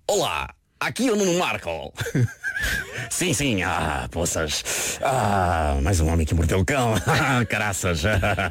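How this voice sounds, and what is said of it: Imitates another person's voice. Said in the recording (Portuguese): “essa é a minha imitação do Marco ... a tua imitação é ótima”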